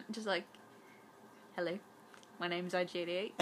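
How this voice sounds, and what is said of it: Put-on cute New Zealand accent. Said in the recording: “cute little New Zealand accent.”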